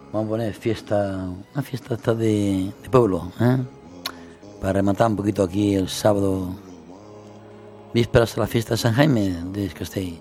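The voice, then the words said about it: Hoarse, partly lost voice. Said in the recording (Spanish): “estoy un poquito afónico, porque apenas he podido hablar estos días, he perdido un poquito la voz... estoy afónico”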